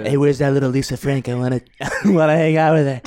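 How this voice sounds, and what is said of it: Imitates another person's voice. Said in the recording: “That impression is too close ... Oh god, Donald Trump”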